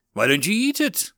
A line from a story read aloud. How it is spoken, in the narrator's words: piped in Orphan